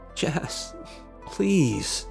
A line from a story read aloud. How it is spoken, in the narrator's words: Neil said in a desperate voice